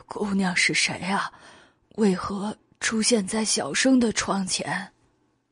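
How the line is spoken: Hoarse voice. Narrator (Chinese): 袁耀声音沙哑

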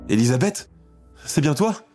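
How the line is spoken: Exclamation. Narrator (French): s'écrie-t-elle

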